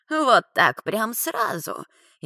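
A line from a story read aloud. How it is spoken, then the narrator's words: Snide old woman. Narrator (Russian): ехидно оскалилась старушка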